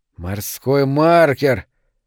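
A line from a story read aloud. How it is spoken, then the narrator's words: Hollow, muffled. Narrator (Russian): глухо произнес Дженкинс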